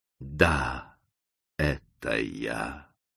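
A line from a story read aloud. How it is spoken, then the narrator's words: Strange whisper. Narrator (Russian): каким-то странным голосом прошептала скорчившаяся женщина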